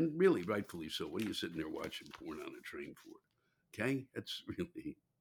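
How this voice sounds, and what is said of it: Usual voice. Nothing is said of it.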